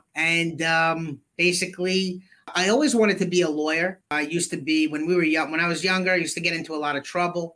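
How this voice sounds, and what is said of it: Brooklyn New York accent. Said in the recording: “I grew up in Brooklyn, New York. Yeah, you write the accent, huh?”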